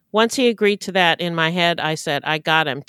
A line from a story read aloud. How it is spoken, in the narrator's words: Tiffany said